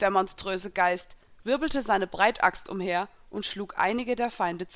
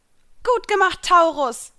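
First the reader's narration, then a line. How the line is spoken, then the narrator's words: Motivated call. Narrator (German): rief ich motiviert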